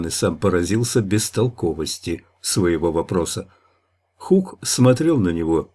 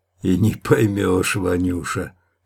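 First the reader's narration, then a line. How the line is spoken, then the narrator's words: Hoarse drink-ruined voice. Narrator (Russian): пропитым хриплым голосом ответил Хук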